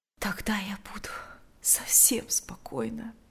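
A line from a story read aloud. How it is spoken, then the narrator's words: Quiet. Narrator (Russian): тихо произнесла она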